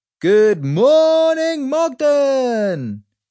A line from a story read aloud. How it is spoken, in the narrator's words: screeched a voice out of the speaker